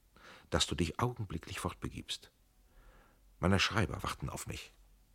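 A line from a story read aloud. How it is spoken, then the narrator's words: Quiet and sharp. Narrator (German): sagte leise und scharf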